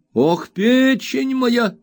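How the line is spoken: Old man's exclamation. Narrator (Russian): воскликнул старик

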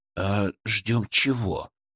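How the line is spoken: Quiet question. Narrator (Russian): тихо спросил Величко

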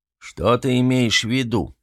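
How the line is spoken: Booming voice. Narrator (Russian): прогудел воевода

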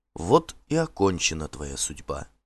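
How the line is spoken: Quiet. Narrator (Russian): тихо сказала Норна

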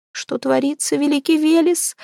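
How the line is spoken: Muffled whimpering. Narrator (Russian): скулила за полотняным пологом

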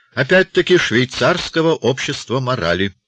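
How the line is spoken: Plain. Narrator (Russian): ответил тип

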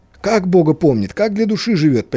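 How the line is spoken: Near cry. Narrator (Russian): почти вскрикнул Левин

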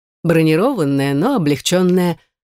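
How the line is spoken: Man boasting. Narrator (Russian): похвастался мужчина

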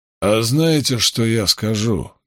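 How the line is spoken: Slow, through teeth. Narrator (Russian): неторопливо процедил джуниор Тернер

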